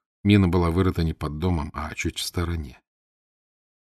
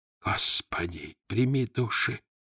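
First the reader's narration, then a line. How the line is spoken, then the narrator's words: Whispering. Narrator (Russian): зашептал Одинцов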